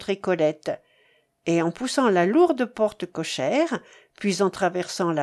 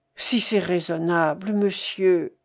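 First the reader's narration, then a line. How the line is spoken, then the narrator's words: Groaning. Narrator (French): gémit Ferdinand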